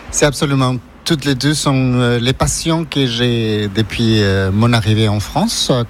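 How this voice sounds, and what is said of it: Ecuadorian Spanish accent in French. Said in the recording (French): “j'ai un accent, je suis d'origine équatorienne”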